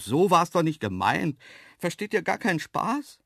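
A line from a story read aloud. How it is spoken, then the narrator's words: Called out. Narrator (German): rief ich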